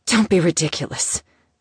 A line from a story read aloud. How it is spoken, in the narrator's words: she growled out